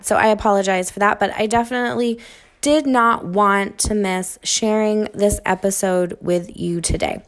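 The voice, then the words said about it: Slightly off, sinus-affected voice. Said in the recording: “my voice sounds a little off today. My sinuses are giving me a little run for my money... making my throat a little on the irritated... side”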